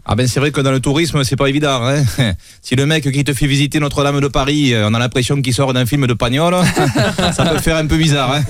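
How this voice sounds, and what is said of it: Marseille southern French accent. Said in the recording (French): “D'ailleurs, à Marseille, vous êtes bien placé pour le savoir.”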